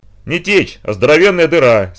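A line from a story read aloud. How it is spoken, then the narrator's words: Plain. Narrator (Russian): сказал Инт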